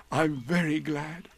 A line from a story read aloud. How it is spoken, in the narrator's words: said happily